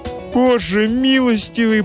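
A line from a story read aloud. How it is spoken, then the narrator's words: Moaning mother. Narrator (Russian): простонала мать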